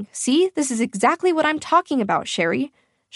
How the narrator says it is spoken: she barked, her voice rising

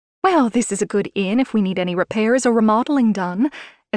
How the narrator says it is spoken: Estelle chirped, clueless

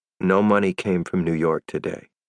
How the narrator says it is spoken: I said calmly

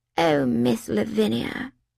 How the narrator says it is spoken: she said in a weak, exhausted voice

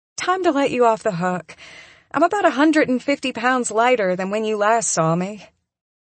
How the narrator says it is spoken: With a tinkling laugh, she says

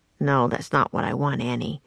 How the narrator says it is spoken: Jack said under his breath

